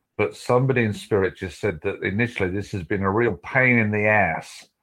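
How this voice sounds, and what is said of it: Speaks with a noticeable accent. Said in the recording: “you'll have to excuse my accent”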